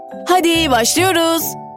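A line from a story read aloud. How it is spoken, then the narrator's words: Shouted. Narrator (Turkish): diye bağırdı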